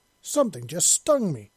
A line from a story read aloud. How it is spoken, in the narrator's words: she exclaimed